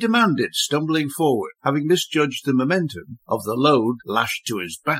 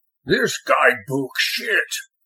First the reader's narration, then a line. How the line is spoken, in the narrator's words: grumbled